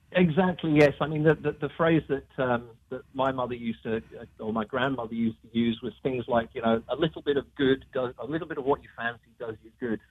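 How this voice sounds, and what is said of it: British accent. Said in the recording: “since you are British ... Give us some words of encouragement now with your accent.”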